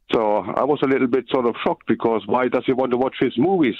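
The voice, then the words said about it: Noticeable accent in English. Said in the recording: “beautiful accent as well”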